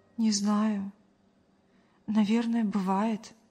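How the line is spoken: Sigh. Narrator (Russian): вздохнула Мария

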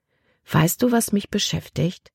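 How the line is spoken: Plain. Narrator (German): sagte Libby schließlich

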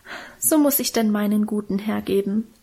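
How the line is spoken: Sighing, self-moved. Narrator (German): seufzte Minchen und schien selber gerührt von ihrer Opferbereitschaft

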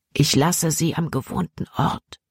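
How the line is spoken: Whisper. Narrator (German): flüsterte Caleb ihm zu

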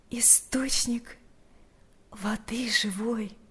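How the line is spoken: Quiet. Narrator (Russian): тихо произнесла Марфа

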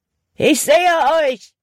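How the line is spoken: Calling out. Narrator (German): rief Hutton

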